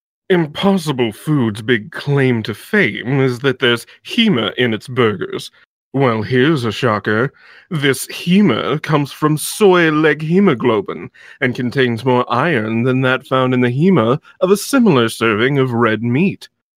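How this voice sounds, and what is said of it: Pompous PETA spokesperson voice. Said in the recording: “in a pompous voice... A pompous PETA voice.”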